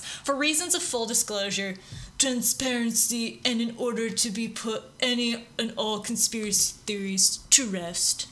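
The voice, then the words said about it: Donald Trump impression. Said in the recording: “That's a good impression. ... You could take Alec Baldwin on a run for his money.”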